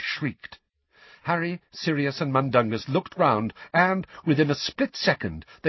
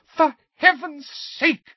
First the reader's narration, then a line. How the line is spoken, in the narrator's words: screamed Mrs